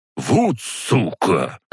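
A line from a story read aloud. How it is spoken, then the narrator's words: Angry male hiss. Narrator (Russian): зло прошипел мужик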